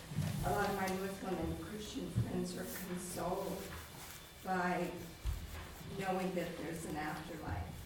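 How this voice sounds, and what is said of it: Hoarse, fading voice. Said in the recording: “sorry, I'm losing my voice.”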